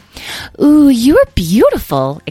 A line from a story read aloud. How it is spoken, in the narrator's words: exclaimed Edwin